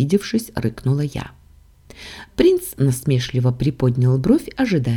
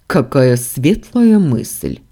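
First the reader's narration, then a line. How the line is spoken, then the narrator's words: Scornful snort. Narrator (Russian): фыркнул Дамиан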